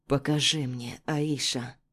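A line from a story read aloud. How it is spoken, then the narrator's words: Quiet. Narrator (Russian): тихо произносит он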